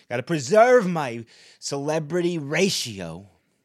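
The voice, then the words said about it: Imitates another person's voice. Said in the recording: “my Brad Pitt impression. That's a really good impression.”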